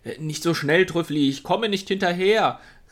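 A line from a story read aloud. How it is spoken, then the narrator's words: Called loudly. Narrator (German): rief er laut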